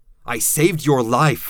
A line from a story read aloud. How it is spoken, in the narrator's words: I shouted